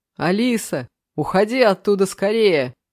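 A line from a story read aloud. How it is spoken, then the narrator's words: Shouting. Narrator (Russian): кричал Саша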